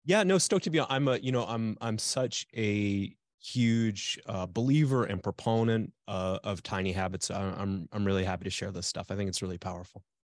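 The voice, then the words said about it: Rich radio-style speaking voice. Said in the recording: “he's also got a great, great radio voice.”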